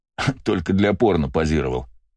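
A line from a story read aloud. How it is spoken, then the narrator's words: Snorting scoff. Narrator (Russian): фыркнул он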